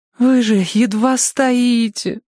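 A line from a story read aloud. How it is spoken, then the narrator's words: Pleading. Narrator (Russian): взмолилась она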